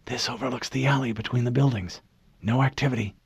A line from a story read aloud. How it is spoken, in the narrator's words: Kelly ... whispered over the channel in their helmets